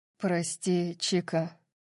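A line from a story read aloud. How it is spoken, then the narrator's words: Soft. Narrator (Russian): мягко сказал он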